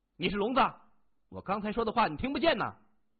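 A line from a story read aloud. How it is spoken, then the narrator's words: Loud. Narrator (Chinese): 金荣大声说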